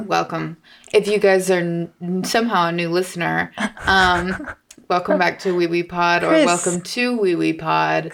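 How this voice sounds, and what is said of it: Deeper morning voice. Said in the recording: “My voice is going to be a little deeper this morning because it is 8 a.m. ... our voices haven't really been used yet.”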